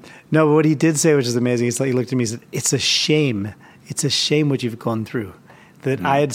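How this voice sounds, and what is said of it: Usual voice. Nothing is said of it.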